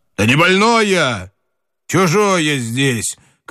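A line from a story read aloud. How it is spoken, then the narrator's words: Shouting. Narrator (Russian): крикнул Семён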